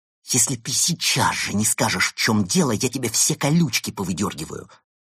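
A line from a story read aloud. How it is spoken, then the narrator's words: Hissing. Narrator (Russian): прошипела она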